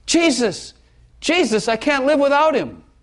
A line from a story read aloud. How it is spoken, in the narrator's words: she cried out these words